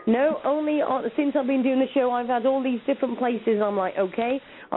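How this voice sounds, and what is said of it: UK English accent. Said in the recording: “I can tell by the accent. ... I'm in the UK. ... I love the accent.”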